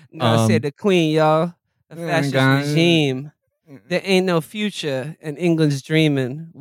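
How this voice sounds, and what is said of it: Imitates another person's singing voice. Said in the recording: “How would Lil Xan sing it? ... That's my impression of Lil Xan.”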